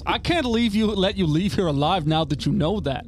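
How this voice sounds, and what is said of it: Put-on New Jersey accent. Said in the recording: “you hear this Jersey accent piercing through the halls”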